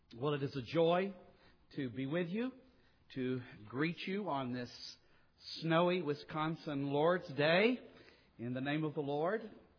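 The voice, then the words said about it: Southern US Mississippi accent. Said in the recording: “if you're trying to figure out the accent, I'm originally from southern Mississippi”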